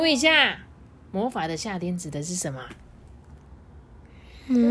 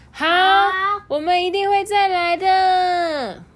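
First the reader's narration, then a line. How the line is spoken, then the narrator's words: Loud. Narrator (Chinese): 我们大声的回答说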